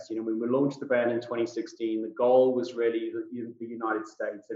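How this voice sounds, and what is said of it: South African accent with British influence. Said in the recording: “I'm South African born and bred. Most people don't get my accent right straight off the bat. ... a little bit of a melting pot of British thrown in there from my 20 years living in the United Kingdom”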